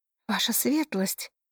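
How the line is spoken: Whispered greeting. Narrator (Russian): приветствовали перешептываниями

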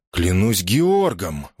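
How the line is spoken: Exclaimed. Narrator (Russian): воскликнул мистер Рэндалл

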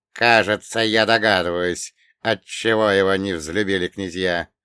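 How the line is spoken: Grumbling. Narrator (Russian): проворчал Святославич

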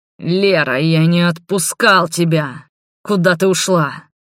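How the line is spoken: Hoarse angry growl. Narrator (Russian): Прорычал он хриплым, гневным голосом

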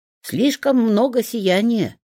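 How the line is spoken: Grumble. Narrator (Russian): пробурчал Тенечек

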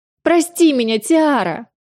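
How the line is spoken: Shrieking at full volume. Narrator (Russian): визжала во все горло Люсия

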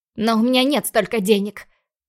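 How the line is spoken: Frustrated growl. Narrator (Russian): Рыкнула я

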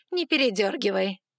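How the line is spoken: Snorting reply. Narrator (Russian): хмыкнула в ответ жрица

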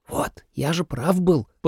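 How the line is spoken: Student's whisper. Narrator (Russian): послышался шепот кого-то из учеников

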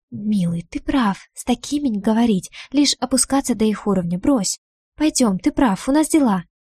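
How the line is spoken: Rapid whisper. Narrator (Russian): я быстро зашептав

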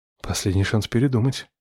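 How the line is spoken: Whisper. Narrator (Russian): шепнул я

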